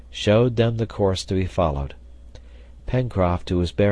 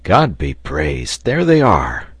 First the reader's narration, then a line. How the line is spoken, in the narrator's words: exclaimed Cyrus Harding